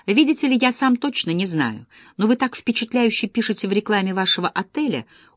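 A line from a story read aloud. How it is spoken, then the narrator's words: Calm reply. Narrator (Russian): Он спокойно ответил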